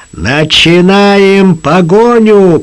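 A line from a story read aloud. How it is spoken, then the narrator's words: Booming voice. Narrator (Russian): прогремел голос капитана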